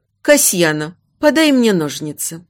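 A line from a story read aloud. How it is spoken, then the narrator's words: Cold command, mother. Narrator (Russian): Холодно велела мать Альциона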